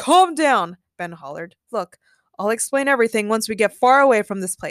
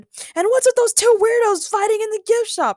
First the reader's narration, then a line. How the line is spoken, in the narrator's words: Ray yelled